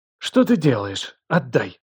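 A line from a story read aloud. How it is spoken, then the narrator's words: Angry but flustered. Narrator (Russian): Голос ее звучал зло, но за этой злостью сквозила растерянность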